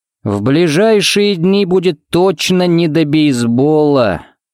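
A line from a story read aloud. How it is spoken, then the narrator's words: Drawn-out drawl. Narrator (Russian): протянул он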